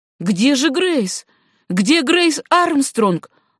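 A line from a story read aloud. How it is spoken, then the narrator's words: Exasperated, indignant exclamation. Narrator (Russian): воскликнул Габи вне себя от досады и негодования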